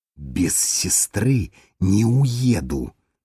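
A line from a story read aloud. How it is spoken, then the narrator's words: Hiss. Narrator (Russian): прошипел он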